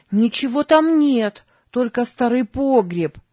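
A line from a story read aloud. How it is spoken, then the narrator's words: Calling after someone. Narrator (Russian): крикнула ему вслед Сара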